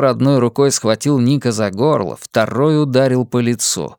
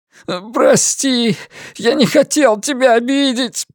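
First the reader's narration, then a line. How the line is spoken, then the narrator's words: Moaning. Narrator (Russian): простонал Ник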